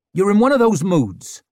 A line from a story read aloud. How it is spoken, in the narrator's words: snapped Ricker